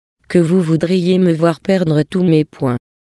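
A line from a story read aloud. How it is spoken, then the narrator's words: Calm voice. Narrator (French): dit Hupi, d'une voix calme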